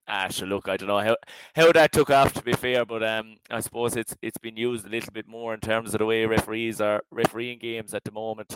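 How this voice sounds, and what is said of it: Irish West Waterford accent. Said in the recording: “a nice kind of a West Waterford accent”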